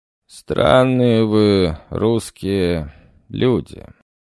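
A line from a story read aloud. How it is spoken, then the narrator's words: Lazy, dismissive voice. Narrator (Russian): ленивым голосом, будто разговаривал почти что с пустым местом, завел разговор правитель Персии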